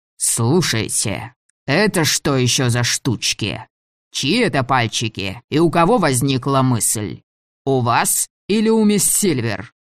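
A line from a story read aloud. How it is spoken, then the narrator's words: Furious, threatening. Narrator (Russian): почти посинел от злости и угрожающим тоном произнес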